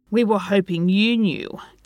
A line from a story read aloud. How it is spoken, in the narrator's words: Tim grumbled